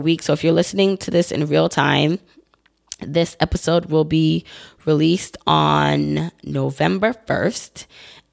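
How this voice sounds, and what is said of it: Worn, recovering voice. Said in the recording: “excuse my voice again. I'm still recovering from FinCon”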